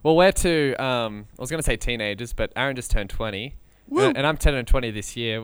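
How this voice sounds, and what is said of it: Australian accent. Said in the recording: “I kind of sound like Hamish a little bit ... we both have the accent ... from New South Wales, Australia”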